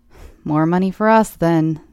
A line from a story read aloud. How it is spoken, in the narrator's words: quipped